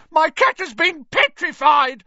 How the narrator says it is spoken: he shrieked

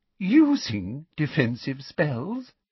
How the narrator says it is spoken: Professor Umbridge repeated with a little laugh

